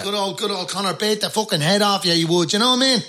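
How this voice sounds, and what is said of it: Put-on inner-city Dublin accent. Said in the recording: “I put on a Dublin accent, and in Dublin, inner city Dublin, they speak differently... A little bit like Conor McGregor”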